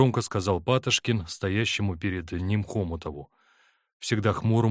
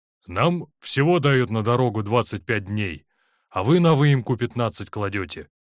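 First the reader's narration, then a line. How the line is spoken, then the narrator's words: Angry reply. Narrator (Russian): ответил ему Хомутов, сердито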